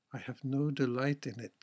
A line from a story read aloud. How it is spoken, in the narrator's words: said she, but with that she sighed